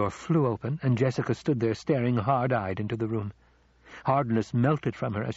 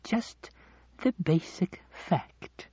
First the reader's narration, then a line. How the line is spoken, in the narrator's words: the old woman said, but her voice was gentle